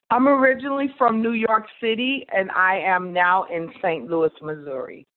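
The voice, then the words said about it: New York accent. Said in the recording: “I recognize the accent, New York”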